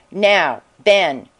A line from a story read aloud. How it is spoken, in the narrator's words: she said